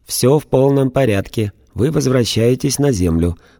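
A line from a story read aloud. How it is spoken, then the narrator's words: Ringing measured metallic voice. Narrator (Russian): то, что сидело за пультом, звонким размеренным металлическим голосом сообщило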